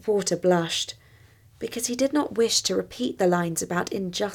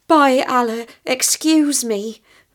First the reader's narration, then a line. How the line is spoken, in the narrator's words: he exclaimed